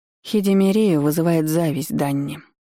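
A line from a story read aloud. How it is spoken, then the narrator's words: Mother sighing. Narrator (Russian): вздохнула мать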